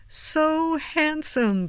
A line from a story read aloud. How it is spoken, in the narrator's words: they cried